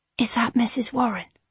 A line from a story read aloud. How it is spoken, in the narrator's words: she whispered to Mr